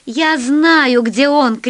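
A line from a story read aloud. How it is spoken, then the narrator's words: Shouted. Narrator (Russian): крикнула Алиса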